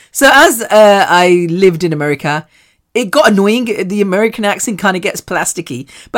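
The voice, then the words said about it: British accent. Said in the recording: “she's got a great British accent. She's so cute.”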